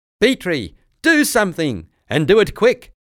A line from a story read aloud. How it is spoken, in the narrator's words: shouted Azarkas